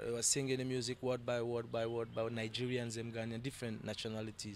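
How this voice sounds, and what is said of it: West African accent mistaken for Jamaican. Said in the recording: “I'm hearing the accent. ... even Jamaican, them keep asking me this question. Are you sure you're not from Jamaica?”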